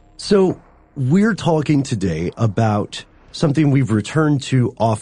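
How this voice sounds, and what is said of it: Usual voice. Nothing is said of it.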